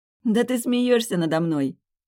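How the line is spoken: Laughing, then abruptly stopping. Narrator (Russian): Расхохоталась, но тут же оборвала смех

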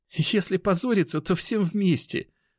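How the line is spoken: Laughing. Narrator (Russian): рассмеялась Оксана

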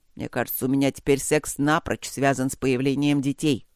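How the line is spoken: Grumble. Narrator (Russian): проворчал Гроул

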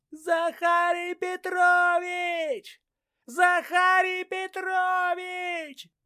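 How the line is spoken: Assistant's throat-tearing shout. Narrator (Russian): Помощник Ляпунова, Кондратий по прозвищу Шматок, кричал на разрыв голосовых связок

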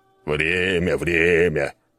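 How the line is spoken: Grumbling. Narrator (Russian): проворчал Скала

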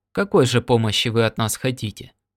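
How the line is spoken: Plain question. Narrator (Russian): спросил Норт

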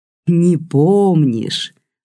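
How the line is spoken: Gloating drawl. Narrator (Russian): злорадно протянул Гриша

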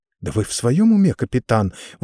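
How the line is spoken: Feigned indignant cry. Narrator (Russian): возмущенно вскричала Сис, хотя ее возмущение показалось мне несколько наигранным

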